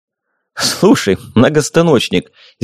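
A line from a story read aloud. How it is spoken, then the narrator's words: Loud laughter. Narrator (Russian): Зимин захохотал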